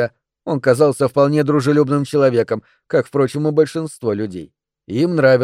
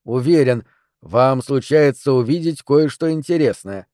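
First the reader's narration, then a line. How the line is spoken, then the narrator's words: Plain. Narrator (Russian): сказал я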